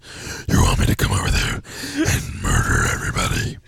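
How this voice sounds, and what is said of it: Menacing devilish character voice. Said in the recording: “do a Satan voice”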